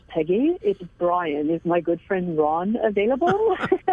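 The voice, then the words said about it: Imitated thick French accent, admittedly bad. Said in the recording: “with this beautiful French thick accent ... Excuse my bad accent and imitation”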